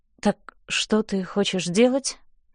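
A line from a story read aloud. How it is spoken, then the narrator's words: Hoarse. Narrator (Russian): хрипло говорю я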